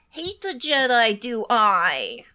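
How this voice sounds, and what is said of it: Yoda-style character voice. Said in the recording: “he does the Yoda talk”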